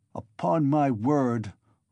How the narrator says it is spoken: Luzhin cried wrathfully and irritably, crimson with confusion

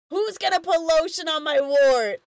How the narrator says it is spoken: Lube yells out

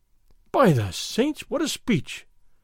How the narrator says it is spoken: Don Diego exclaimed, as if in admiration

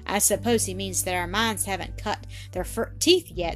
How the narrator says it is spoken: said Annis, laughing

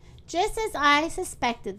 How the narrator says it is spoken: the rose cried

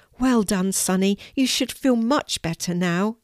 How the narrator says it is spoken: exclaimed Kelti

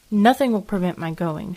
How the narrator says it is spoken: she said firmly

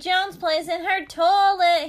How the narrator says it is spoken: he hollered

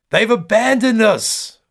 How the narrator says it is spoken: one woman screams

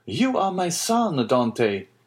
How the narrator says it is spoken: exclaimed the old man

